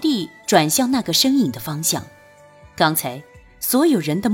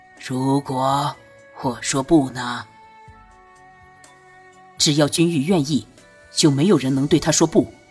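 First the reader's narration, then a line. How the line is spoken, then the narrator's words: Deep-voiced emperor. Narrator (Chinese): 皇帝沉声道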